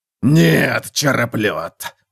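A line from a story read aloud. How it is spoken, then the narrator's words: Growling. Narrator (Russian): прорычал Готрек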